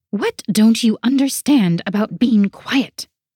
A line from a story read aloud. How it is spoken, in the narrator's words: Vera hissed